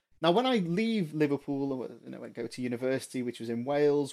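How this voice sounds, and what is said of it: Mild Liverpool accent, not strongly Scouse. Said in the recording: “I don't sound like a Scouser, it's fair to say. And people may be able to place me, but I've got more of a Michael Owen accent than a Steven Gerrard accent.”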